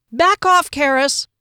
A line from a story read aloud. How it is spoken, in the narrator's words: Fennel yelled